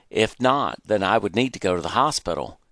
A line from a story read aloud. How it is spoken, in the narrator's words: he exclaimed